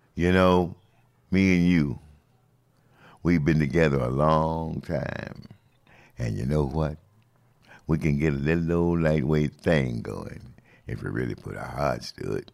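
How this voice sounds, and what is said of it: Sings in a low voice. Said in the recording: “in my low voice”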